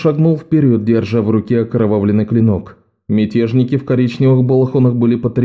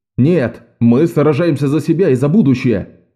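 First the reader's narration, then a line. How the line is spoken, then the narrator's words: Shouted. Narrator (Russian): крикнул один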